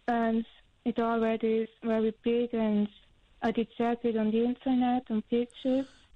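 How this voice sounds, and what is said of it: Strong accent, muffled voice. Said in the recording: “you've got a very beautiful but strong accent, and also you're quite muffled”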